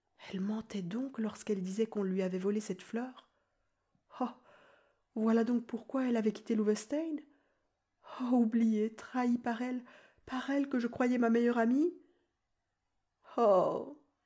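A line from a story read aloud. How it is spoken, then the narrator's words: Moaning. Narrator (French): gémit Boxtel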